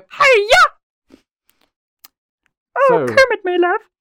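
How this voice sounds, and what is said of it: Miss Piggy cartoon character voice. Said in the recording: “when I do a Miss Piggy voice”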